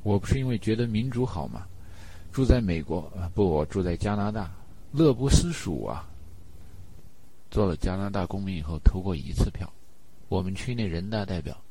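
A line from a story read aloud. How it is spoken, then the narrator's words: Joking. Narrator (Chinese): 陈达开玩笑说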